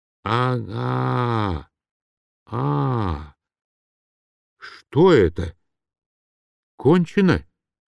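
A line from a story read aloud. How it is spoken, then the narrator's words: Muffled question. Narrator (Russian): глухо спросил Турбин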